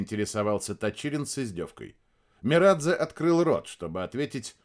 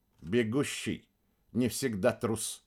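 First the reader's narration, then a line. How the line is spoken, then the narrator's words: Soft. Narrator (Russian): проговорил он мягко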